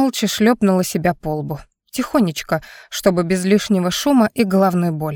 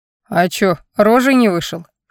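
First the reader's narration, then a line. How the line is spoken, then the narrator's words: Short laugh. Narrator (Russian): хохотнул Гриб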